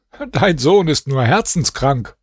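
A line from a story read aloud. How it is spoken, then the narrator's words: Laughing. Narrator (German): lachte und sagte zu seinem Vater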